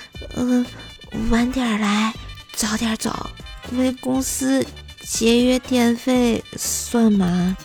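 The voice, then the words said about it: Quiet, soft-spoken delivery. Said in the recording (Chinese): “小声地说”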